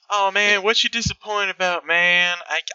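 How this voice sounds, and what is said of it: Attempted California surfer accent. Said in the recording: “I'll do a California voice. ... I can't. I'll do a California voice at all tonight. So I'm not even gonna fucking try.”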